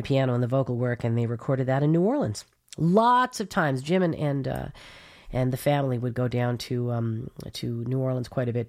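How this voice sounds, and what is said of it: Stuffed-up, congested nasal voice. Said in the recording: “I sound a little stuffed up ... I feel like I've been stuffed up all week ... the allergies ... We'll just sniffle through”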